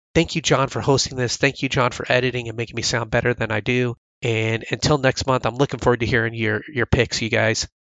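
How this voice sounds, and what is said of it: Sick voice, sounds a bit bad. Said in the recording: “here I am sick. I'm running a fever right now ... my voice sounds a little bit bad”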